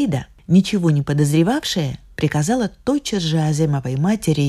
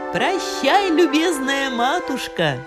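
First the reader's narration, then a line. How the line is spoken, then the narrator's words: Shout. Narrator (Russian): закричала она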